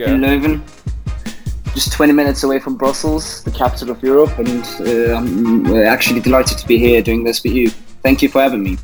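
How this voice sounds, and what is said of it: English accent. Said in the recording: “someone with an English accent”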